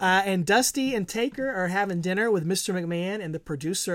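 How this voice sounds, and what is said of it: Usual voice. Nothing is said of it.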